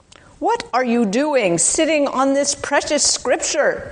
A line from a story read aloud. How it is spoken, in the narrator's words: he shouted